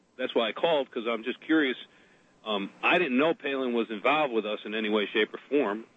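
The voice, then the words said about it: Connecticut accent, not Southern. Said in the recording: “you hear my accent, by the way, just not to interrupt you, but you hear my accent. I'm not from South Carolina. ... I'm from Connecticut.”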